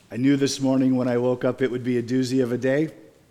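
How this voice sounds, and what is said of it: Strained, struggling voice. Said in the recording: “If you couldn't hear it in my voice, I'm struggling.”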